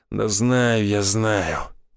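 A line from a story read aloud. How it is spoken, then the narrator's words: Criminal through gritted teeth. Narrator (Russian): процедил уголовник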